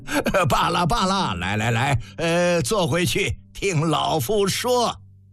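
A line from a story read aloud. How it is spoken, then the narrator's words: Croaky cackling laugh. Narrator (Chinese): 蔡泽公鸭嗓呱呱笑道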